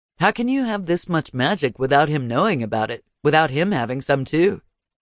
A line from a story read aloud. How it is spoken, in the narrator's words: he asked